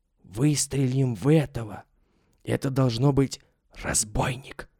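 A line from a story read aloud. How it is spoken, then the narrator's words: Whisper. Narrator (Russian): Шепотом проговорил Митя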